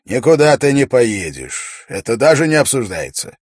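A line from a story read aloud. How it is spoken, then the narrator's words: Commanding royal voice. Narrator (Russian): король властным голосом произнес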